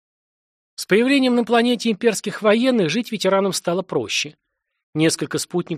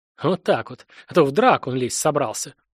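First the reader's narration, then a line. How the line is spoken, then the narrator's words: Grumbling veteran. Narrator (Russian): проворчал ветеран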